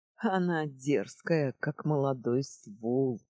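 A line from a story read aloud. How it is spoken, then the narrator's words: Laughing loudly. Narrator (Russian): захохотал Дуэсдея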